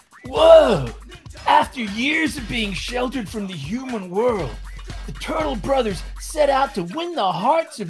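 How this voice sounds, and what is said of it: California surfer-dude character voice. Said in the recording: “you definitely have to go Cali Michelangelo”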